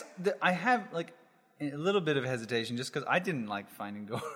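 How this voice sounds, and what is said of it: Usual voice. Nothing is said of it.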